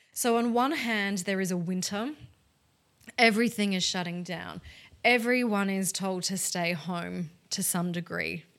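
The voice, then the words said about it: Australian accent. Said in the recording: “In case you hadn't guessed from my accent, I am in Australia.”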